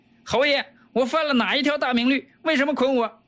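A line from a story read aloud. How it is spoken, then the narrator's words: Loud shout. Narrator (Chinese): 大叫起来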